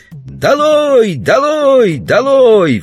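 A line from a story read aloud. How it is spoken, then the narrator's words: Children yelling. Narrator (Russian): вопили дети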